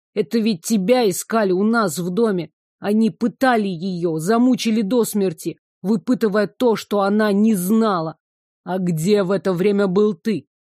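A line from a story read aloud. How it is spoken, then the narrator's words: Crushed, through clenched teeth. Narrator (Russian): процедил Игнат, раздавленный ужасной новостью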